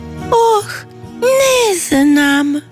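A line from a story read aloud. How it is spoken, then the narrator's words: Sad answer. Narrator (Croatian): tužno odgovori sjemenčica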